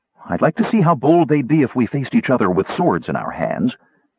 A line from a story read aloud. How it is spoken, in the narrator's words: She waved gaily and said to Sturm